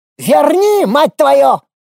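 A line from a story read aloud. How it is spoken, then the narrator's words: Unsmiling shriek. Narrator (Russian): Уже без тени улыбки взвизгнул коричнево-кожей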